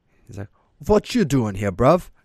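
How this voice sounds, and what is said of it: Put-on English accent. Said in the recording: “I'm not the king of accents ... Is he English or is he Australian? I'm going to go with English. Whatever that one fucking accent off of the Kingsman movie is.”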